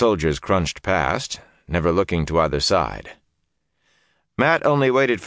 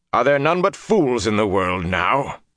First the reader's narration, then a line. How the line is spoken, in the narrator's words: the deep voice said harshly